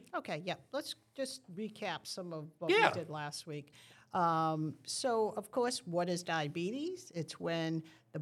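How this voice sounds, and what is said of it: Noticeable accent. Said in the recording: “you have a great accent”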